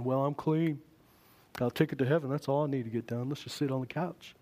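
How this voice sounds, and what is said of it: Put-on Southern accent. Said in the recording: “the southern accent”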